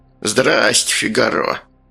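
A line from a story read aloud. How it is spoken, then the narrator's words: Creaky voice. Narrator (Russian): проскрипел Сальдо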